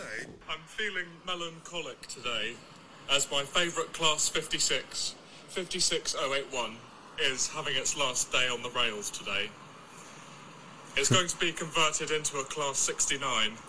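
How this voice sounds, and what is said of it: Strong British accent. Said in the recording (German): “widerliche britische Akzent”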